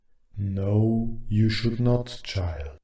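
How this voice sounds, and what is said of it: Deep ghostly character voice. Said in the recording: “a deep voice answered”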